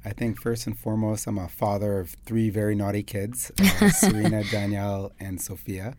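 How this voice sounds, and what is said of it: American Chicago accent. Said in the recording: “If you can't tell from the accent, I'm from Chicago. ... I came here as an expat American”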